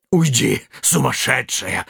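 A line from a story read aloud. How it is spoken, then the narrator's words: Hissing. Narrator (Russian): шипел жрец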